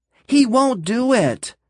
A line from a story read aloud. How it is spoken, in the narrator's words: she screamed